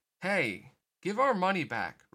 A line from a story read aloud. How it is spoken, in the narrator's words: Roxas shouted